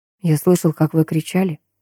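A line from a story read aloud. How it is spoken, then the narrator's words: Quiet. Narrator (Russian): тихо произнес он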